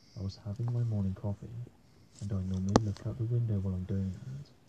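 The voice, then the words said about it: Flat monotone delivery. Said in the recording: “He's so monotone.”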